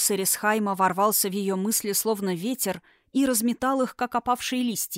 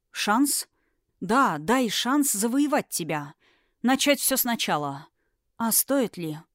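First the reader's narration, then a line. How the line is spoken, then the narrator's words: Sad wry laugh. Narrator (Russian): Она печально усмехнулась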